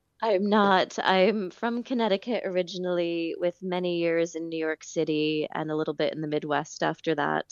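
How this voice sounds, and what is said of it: American accent. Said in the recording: “I can tell by your accent, you're not born and raised in Killa”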